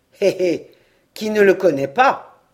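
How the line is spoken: Hard, nasty hissing snigger. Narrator (French): ricana Balanec, l'œil soudain dur et mauvais, la voix sifflante

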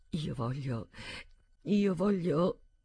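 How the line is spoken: Muffled murmur. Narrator (Italian): Mormorò tra le stoffe

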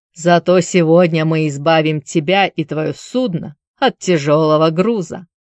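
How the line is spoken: Curious, with a snort. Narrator (Russian): капитан Девера, хмыкнув, полюбопытствовал

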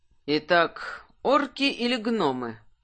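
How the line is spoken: Thoughtful mutter. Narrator (Russian): Задумчиво пробормотал Кирсан

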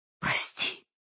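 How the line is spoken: Broken whisper. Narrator (Russian): прерывисто шепнула она

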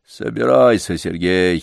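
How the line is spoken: Sullen grumble. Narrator (Russian): угрюмо проворчал Ладышкин

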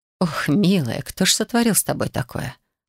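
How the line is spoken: Whispered. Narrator (Russian): прошептала

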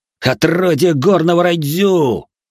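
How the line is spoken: Several archers yelling together. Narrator (Russian): заорали сразу несколько лучников

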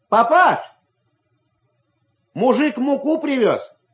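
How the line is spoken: Shouted. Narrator (Russian): крикнул Ваня

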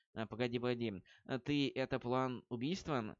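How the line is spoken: Stammering question. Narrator (Russian): заикаясь, спросил Грейхаунд

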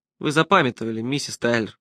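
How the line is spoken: Gentle. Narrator (Russian): мягко сказал я

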